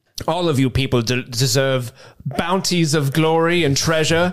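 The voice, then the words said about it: Put-on theatrical accent. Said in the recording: “My accent disappeared for but a second.”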